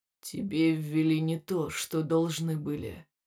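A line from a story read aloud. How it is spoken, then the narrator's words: Quiet. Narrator (Russian): произнес он тихо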